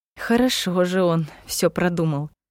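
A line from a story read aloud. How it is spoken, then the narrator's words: Grumbling to herself. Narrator (Russian): проворчала про себя Ева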